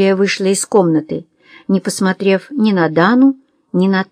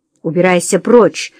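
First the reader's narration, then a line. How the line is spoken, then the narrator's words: Angry. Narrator (Russian): зло проговорила она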